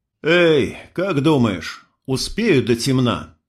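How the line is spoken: Sighing. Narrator (Russian): вздохнул я

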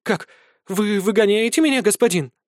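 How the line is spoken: Panicked exclamation. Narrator (Russian): С искренней паникой в голосе воскликнула Винтель

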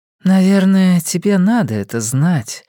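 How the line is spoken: Sigh. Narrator (Russian): вздохнула Дженна

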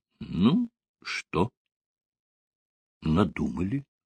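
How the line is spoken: Quiet question. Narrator (Russian): тихо спросил Сталин

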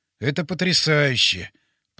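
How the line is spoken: Mutter. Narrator (Russian): пробормотал я

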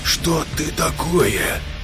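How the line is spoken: Whisper in ear. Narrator (Russian): прошептал Олег в ухо

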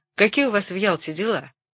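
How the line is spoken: Angry. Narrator (Russian): сказал сердито

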